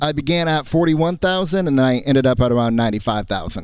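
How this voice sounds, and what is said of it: Polished radio announcer voice. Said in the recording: “I thought you have a great radio voice.”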